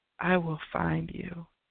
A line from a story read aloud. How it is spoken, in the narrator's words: whispered